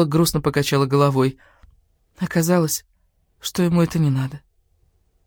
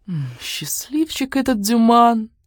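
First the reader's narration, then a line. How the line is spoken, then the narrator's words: Tender cooing. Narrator (Russian): умиленно проворковала Катриша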